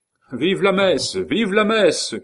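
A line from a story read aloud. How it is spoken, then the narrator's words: Crowd shouting. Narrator (French): cria un flot de peuple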